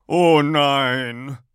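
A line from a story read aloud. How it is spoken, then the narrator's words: Loud cry. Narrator (German): ruft er laut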